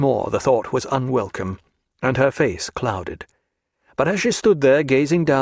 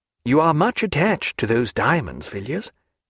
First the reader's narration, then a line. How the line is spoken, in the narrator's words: said kindly